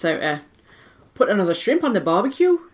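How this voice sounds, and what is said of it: Geordie accent. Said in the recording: “That's Geordie. ... Correct.”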